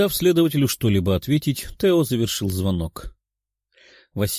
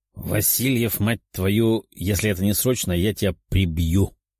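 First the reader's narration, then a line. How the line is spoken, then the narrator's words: Growl over phone. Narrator (Russian): прорычал голос из трубки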